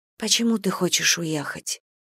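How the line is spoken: Quiet question. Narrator (Russian): тихо спросила Гэм

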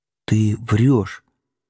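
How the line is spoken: Said quietly. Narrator (Russian): тихо сказала она

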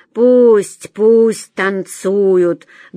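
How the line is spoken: Nasty, vile voice. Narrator (Russian): гнусным голосом сказала Фаина Ивановна

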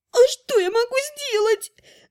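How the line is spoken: Whimpering. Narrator (Russian): захныкала Элваресса

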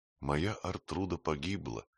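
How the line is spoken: Quiet grieving. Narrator (Russian): тихо сказала Афра

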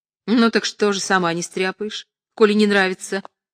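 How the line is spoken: Angry. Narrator (Russian): сердито отвечала Лена

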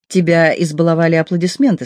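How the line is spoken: Plain. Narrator (Russian): сказал Джо

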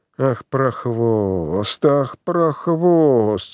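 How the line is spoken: Hoarse through teeth. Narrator (Russian): сквозь зубы сипела Пелагея Ивановна

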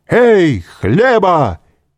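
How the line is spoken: Shout. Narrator (Russian): крикнул он

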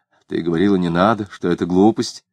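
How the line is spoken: Muttering. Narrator (Russian): Клим пробормотал

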